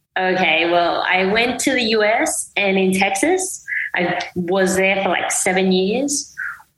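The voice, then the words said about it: Mixed American and Australian accent. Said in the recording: “your accent, it's a bit of everywhere ... So I think it's just a mix ... So I think it's a bit of Australian as well. ... It's everywhere”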